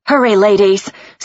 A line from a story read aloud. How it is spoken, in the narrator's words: Sylvia cried